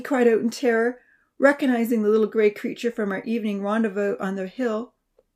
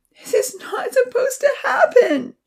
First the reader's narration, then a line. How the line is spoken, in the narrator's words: she wailed